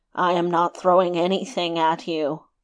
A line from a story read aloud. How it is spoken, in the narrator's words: answered the first one, grumbling